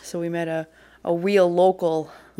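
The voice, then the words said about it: Put-on New York/Boston accent. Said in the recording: “That was my New York accent. ... That was your New York accent? No, it wasn't. That was way more Bostonian.”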